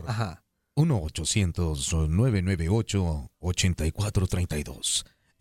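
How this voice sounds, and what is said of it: Radio announcer voice. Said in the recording (Spanish): “Ahora con voz de locutor.”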